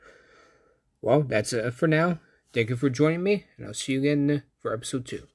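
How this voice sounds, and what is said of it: Usual voice. Nothing is said of it.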